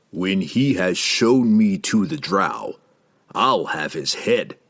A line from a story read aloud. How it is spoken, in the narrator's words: Jerden growled